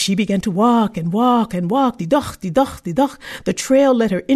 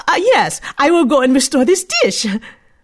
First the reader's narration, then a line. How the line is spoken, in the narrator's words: She eagerly picked up the pieces and said